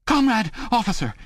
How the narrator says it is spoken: cried

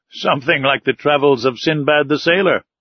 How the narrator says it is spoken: I replied, laughing

